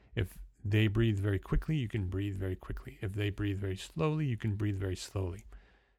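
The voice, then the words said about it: New Jersey accent. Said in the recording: “my accent changes from New Jersey, which is what you're hearing right now, to because that's where I was born and bred... I'm a Jersey boy”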